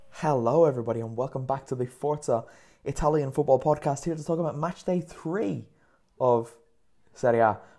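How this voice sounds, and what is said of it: Excited, energetic speaking voice. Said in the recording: “I'm very excited, you can probably hear that in my voice”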